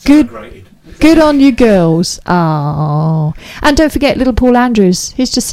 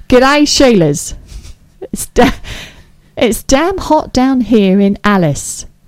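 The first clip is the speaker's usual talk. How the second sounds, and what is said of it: Poor put-on Australian accent. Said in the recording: “I can't do the accent. I'm so sorry, Mr. Meerkat. I can't do the accent. ... He's not from Alice. He's not from Australia.”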